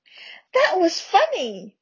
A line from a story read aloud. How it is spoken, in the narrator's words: Her prominent eyes swam with tears as she gasped for breath